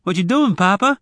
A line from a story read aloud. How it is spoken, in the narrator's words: Zek asked anxiously, completely puzzled by his father's actions